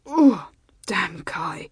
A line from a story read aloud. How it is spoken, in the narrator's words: he said in a strained voice